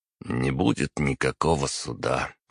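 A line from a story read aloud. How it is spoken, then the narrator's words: Weary. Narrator (Russian): устало ответил я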